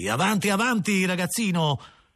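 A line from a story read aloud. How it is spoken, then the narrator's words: Brusque captain exclaiming. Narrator (Italian): esclamò il nostro capitano in tono brusco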